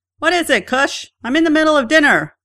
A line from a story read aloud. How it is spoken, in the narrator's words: she shouts back from the kitchen